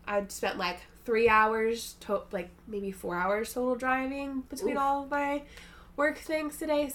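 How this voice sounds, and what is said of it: Congested, sick-sounding voice. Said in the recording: “a little congested over here ... she's sick! ... It's my sexy voice.”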